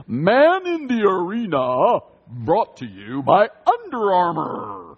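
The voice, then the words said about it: Exaggerated annoying announcer voice. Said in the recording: “I'm trying to do the voice. ... The voice of the guy that does the Man in the Arena announcements for the Tom Brady series. He has the most annoying announcer voice in the world.”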